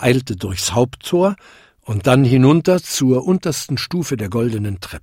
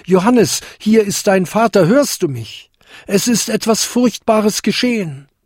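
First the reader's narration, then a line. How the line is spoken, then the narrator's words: Called out. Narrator (German): rief er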